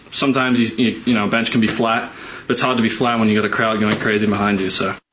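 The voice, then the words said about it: Australian accent. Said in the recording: “It even sounds better in that Australian accent, too.”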